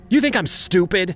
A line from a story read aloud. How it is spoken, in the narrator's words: she shouted at me